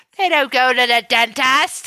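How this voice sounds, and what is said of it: Attempted British accent. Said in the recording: “I don't know how to say that in a British accent. ... Dentass. That's how you're saying it.”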